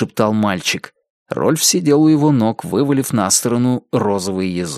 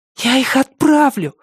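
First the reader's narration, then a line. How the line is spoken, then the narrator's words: Boy, breathed out. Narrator (Russian): выдохнул мальчик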